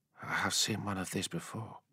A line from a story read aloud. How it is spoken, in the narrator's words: he said quietly